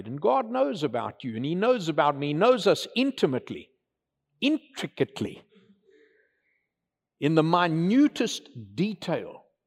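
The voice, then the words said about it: South African accent. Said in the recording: “That unique brogue, that South African brogue”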